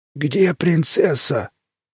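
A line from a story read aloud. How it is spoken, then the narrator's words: Hoarse chorus asking. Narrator (Russian): сиплым хором спросили пришельцы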